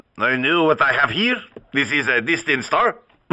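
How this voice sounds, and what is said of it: Put-on French accent. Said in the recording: “with a French accent.”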